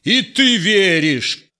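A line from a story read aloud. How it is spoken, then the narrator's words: Shouting. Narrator (Russian): кричал синяя борода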